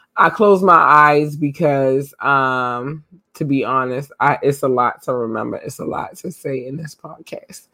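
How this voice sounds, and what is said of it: Hoarse, fading voice. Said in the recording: “I'm losing my voice. I did a lot in the last few days, so I'm losing my voice”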